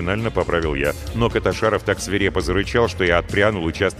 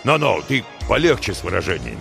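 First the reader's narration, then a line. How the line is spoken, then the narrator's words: Frowning, stern. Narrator (Russian): Нахмурился шеф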